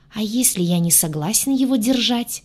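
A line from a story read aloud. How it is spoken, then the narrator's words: Sarcastic hiss. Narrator (Russian): Саркастически прошипел рогатый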